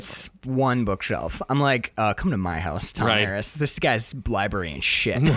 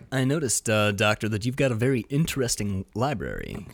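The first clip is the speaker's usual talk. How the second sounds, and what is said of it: Imitates another person's voice. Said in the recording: “I do my Tom Harris voice.”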